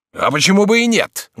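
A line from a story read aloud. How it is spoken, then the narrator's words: Proud exclamation. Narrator (Russian): гордо воскликнул он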